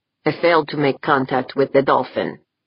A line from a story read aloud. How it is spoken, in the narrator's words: replied flatly